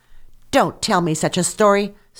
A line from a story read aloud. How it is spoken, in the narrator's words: snapped back the countess, now in a fury